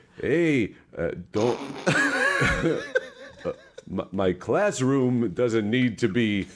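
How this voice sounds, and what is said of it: Christopher Walken impression. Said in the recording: “Can you do a Walken voice for me? ... That was good enough. ... it's not impressive.”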